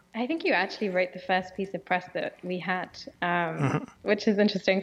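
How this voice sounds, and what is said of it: British English accent. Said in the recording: “we rarely have any people with accents on the show... my British accent”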